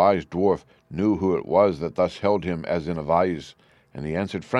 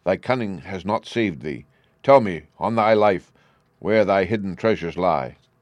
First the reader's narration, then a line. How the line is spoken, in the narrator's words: cried Loki